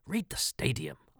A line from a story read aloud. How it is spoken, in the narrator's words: I thought, testily